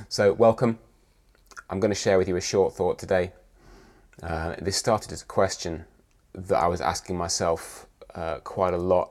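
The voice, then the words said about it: Croaky, hoarse voice. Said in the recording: “my voice is a little croaky, I'm a little hoarse, I'm full of a cold”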